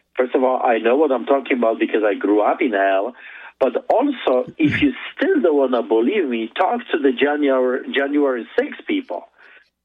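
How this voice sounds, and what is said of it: Foreign accent. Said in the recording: “believe my accent”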